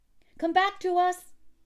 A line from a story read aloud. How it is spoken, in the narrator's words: they cried